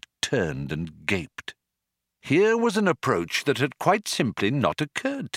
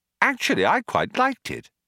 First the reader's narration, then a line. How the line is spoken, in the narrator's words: Arthur said brightly